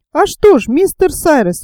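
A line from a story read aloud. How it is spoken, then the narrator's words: Exclaiming. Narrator (Russian): воскликнул моряк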